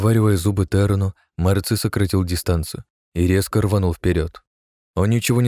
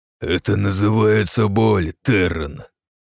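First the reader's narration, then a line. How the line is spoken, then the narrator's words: Venomous laughing through teeth. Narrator (Russian): Смеясь, ядовито процедил Марци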